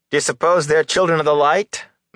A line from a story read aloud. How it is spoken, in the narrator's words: Matt asked in a loud voice